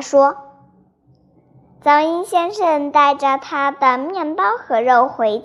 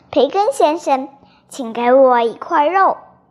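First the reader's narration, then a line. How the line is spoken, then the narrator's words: Soft voice. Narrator (Chinese): 他轻声地说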